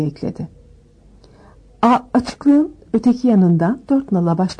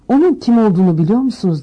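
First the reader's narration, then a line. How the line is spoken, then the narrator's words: Plain. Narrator (Turkish): dedi Frenze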